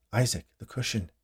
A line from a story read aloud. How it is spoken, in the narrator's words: Jeremy said to him softly